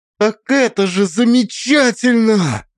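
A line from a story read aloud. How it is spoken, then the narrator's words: Loud exclamation. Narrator (Russian): воскликнула Алиса, и ее голос прозвучал слишком громко в тишине кафе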